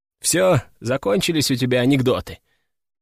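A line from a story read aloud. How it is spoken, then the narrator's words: Tired question. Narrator (Russian): устало спросил Виктор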